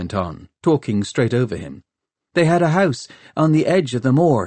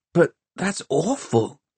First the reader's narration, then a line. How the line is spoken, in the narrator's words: Tom gasped